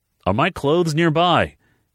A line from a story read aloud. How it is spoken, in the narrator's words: he called out, not sure where she was in the house